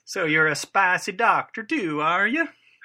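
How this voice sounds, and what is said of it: Badly done put-on accent. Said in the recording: “my accents are just terrible”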